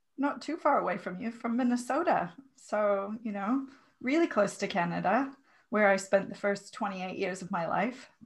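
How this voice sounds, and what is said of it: Mixed American and New Zealand accent. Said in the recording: “my accent used to sound a little bit more like yours, but I have a very confused accent now ... you have a lovely accent”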